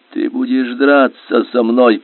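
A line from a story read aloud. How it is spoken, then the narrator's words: Hoarse, threatening. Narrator (Russian): прохрипел он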